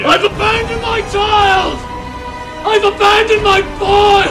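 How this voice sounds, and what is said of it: Loud, shouted anguished speech. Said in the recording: “Say it louder.”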